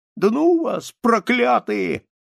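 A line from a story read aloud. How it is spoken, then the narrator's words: Shouted. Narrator (Russian): кричал он на мышей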